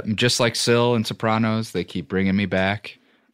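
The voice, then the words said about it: Impression of Sopranos character Syl. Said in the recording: “Pretty good Syl impression.”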